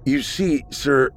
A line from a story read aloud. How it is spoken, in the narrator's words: he said, raising his voice slightly at the end, hoping they would correct him if wrong